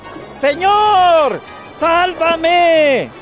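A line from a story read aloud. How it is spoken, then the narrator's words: Frightened cry. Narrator (Spanish): se asustó y, como empezaba a hundirse, gritó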